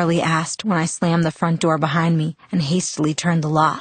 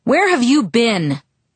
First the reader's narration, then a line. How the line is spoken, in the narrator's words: he thundered